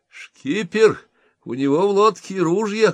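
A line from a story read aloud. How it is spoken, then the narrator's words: Shout. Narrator (Russian): крикнул он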